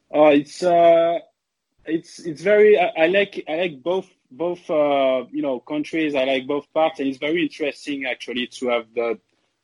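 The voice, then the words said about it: French accent. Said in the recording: “the Boston roots and the Boston attitude with a French accent”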